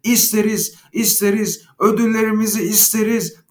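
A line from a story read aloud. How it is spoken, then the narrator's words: Group shouting. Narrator (Turkish): diye bağırıştılar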